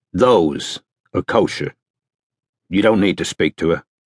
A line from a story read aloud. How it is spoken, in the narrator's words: said Strike firmly